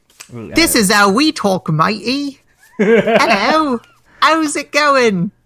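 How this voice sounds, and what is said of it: Exaggerated English accent. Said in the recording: “speaking as an English person, I find that accent highly demeaning”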